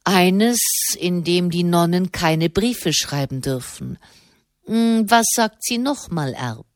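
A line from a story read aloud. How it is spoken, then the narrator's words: Dry remark. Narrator (German): bemerkte der Kardinal trocken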